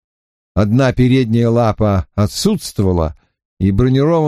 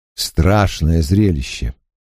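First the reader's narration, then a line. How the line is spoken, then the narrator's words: Cold, flat voice. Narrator (Russian): Голос его звучал холодно и казался бесцветным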